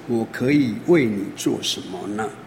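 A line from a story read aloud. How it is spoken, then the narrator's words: Gentle. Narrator (Chinese): 以利沙，他很温柔的 他跟他说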